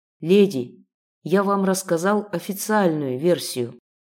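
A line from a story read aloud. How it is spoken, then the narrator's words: Sighed. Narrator (Russian): вздохнул Ян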